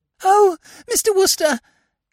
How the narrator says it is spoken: said the girl in a gasping sort of way

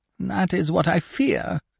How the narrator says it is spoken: whimpered Scaramouche

